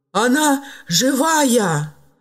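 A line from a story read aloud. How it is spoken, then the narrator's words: Strained, forced out. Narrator (Russian): выдавил из себя Филипп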